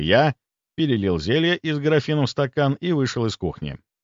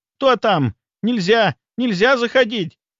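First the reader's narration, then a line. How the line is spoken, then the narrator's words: Screaming. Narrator (Russian): закричала она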